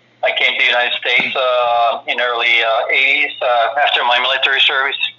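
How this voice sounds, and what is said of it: Heavy Finnish accent. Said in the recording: “I'm originally from Finland, as you can probably tell from my heavy accent.”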